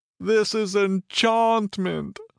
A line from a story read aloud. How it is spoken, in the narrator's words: cried in despair